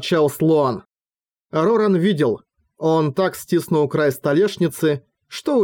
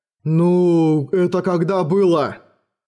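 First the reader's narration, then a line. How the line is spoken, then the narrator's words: Doubtful drawl. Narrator (Russian): с сомнением протянул Мом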